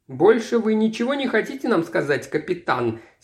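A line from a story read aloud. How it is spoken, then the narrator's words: Plain question. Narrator (Russian): спросил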